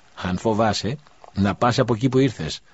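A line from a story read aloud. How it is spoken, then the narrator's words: Curt, dry. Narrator (Greek): απάντησε ξερά ο ιερέας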